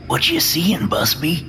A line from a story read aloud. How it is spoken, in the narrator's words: Nomitz whispers